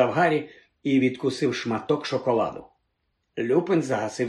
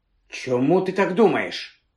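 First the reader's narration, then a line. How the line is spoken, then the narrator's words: Sharp question. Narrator (Ukrainian): різко запитав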